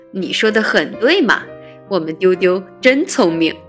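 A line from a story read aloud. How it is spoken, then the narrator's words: Elderly man, laughing. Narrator (Chinese): 白象伯伯笑着说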